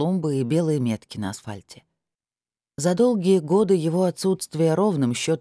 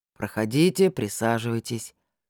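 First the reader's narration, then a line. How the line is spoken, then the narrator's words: Dry, curt. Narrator (Russian): сухо произнес опер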